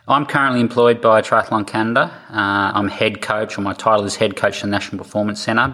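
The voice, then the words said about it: Australian accent. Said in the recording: “I'm an Australian, as you'll tell by my accent”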